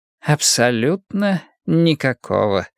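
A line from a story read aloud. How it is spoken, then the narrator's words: Soft reply. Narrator (Russian): мягко ответил Пуаро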